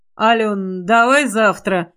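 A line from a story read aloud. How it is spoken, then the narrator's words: Hoarse request. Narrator (Russian): хрипло попросил Константин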